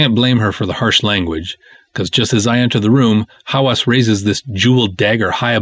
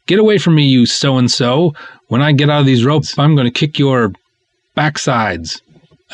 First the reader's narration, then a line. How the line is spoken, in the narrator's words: shouting stuff like